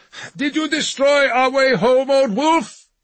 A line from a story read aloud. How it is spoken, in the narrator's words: Jürgen called out